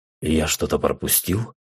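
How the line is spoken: Quiet question. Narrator (Russian): спросил я негромко у Рустама

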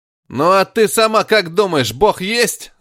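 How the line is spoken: Yelled in face. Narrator (Russian): заорал он, нацелившись ей прямо в лицо

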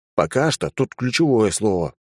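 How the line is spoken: Grumble. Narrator (Russian): пробурчал я

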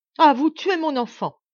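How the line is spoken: Exclaiming. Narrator (French): s'écria la Baronne

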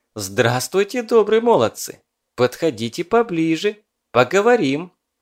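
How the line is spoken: Cheerful. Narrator (Russian): Посмотрела девка весело и говорит

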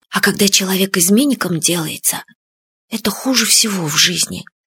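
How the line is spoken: Quiet. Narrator (Russian): тихо сказал Фадейка

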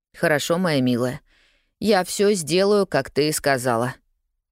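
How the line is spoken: Dejected. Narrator (Russian): уныло кивнул Джимми

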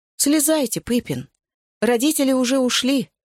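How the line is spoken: Heavy guilty sigh. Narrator (Russian): сказал, тяжело вздохнув, потому что чувствовал себя косвенно виноватым

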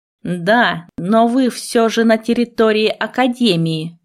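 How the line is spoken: Growl. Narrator (Russian): рыкнул он

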